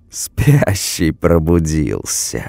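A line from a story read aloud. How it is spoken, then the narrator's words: Laughing girl, drawn-out hiss. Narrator (Russian): растягивая шипящее, рассмеялась девушка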